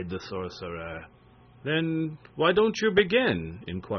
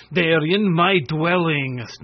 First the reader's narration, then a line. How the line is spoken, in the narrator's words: snapped Quitoffle